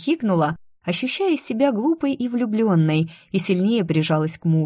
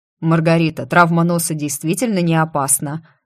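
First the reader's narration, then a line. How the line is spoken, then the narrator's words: Slightly tense voice. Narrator (Russian): немного напряженным голосом уточнил Део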